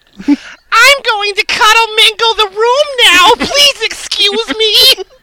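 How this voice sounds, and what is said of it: Cartoon pony character voice. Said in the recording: “in that Rainbow Dash voice”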